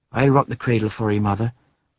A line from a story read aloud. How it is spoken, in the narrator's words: said the daughter gently